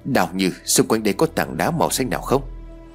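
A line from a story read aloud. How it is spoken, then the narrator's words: Quiet question. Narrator (Vietnamese): Tôi nhỏ giọng hỏi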